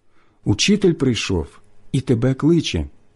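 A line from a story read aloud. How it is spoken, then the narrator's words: Whispered. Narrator (Ukrainian): каже пошепки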